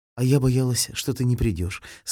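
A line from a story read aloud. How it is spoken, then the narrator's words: Plain. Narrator (Russian): сказала Галчонок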